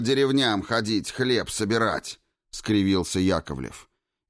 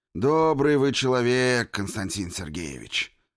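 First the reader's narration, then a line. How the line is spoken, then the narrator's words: Sighing. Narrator (Russian): вздохнул начальник второго батальона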